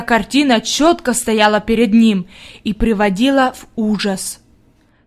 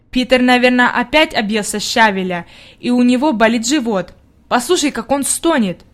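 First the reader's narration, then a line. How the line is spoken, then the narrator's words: Plain. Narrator (Russian): сказала Бригитта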